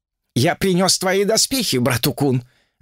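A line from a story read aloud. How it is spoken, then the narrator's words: Shouted. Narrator (Russian): крикнул Джубадзе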